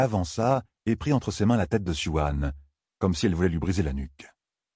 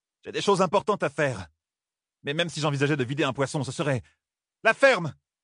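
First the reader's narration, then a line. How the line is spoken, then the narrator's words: Exclaiming. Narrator (French): s'écria Ninevée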